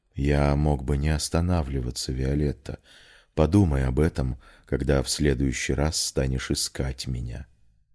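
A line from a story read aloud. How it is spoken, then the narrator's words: Whisper. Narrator (Russian): прошептал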